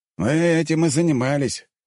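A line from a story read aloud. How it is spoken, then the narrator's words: Wry snort. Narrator (Russian): хмыкнул Вадим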